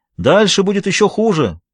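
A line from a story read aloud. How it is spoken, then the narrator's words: Shout. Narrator (Russian): прокричал Эдвард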